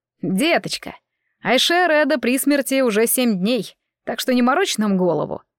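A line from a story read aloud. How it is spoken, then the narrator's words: Insolent reply. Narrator (Russian): нахально отозвался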